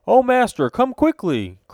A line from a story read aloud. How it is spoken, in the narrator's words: cried the giant